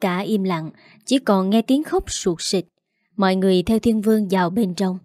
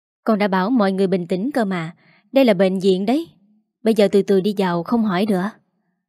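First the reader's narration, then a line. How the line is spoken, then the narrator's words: Heavy sigh. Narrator (Vietnamese): Thiên Vương thở dài thường thượt rồi bảo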